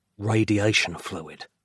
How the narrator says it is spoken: Nick whispered, the unspeakable fear of untold generations realized at last

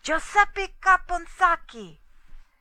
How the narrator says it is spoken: Guido cried

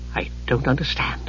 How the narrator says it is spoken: Palin whispered, anguished

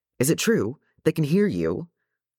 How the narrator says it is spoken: Their faces were alight with hope, and Keely immediately blurted

